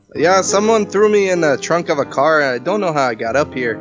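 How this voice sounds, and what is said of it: Put-on accent, decently done. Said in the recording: “accent I'm doing ... It's decent. Yeah. It's decent. ... the accent is the decent accent.”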